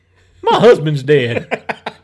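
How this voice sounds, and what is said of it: Comic character voice of a black widow. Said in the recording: “this is my impression of a black widow”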